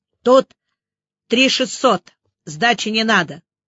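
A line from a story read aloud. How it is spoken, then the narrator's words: Calm statement. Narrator (Russian): Юноша спокойно сообщил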